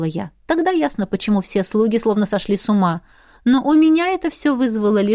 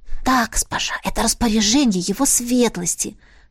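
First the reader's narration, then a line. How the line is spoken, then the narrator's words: Whispered. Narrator (Russian): шепнула она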